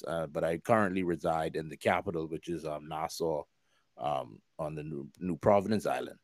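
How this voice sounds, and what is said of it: Bahamian accent. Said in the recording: “if you have not picked up on my accent, as some people say I have an accent, I don't think I do ... I'm from the Bahamas. I born and raised Freeport, Grand Bahama.”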